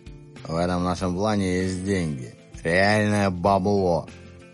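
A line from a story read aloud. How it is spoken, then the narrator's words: Grim boasting. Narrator (Russian): Мрачно похвастался Ревел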